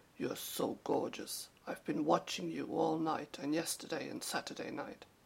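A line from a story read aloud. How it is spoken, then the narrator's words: Soft crooning. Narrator (German): einem gut gebauten, großen Afroamerikaner … säuselte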